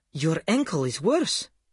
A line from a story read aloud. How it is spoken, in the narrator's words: she exclaimed